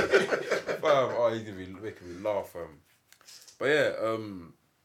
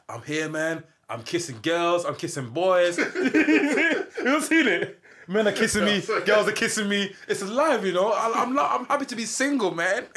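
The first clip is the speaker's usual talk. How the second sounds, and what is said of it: Imitates another person's accent. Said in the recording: “I'm not trying to mimic his accent, but that's what he was saying”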